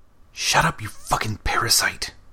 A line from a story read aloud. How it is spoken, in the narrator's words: Damien hissed